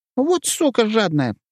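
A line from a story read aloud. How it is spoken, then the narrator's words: Squeaky voice. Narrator (Russian): пропищал Петька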